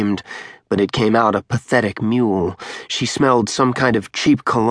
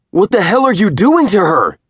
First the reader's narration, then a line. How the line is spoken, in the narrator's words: he screamed